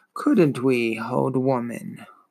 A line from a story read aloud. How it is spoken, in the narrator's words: Morla grunted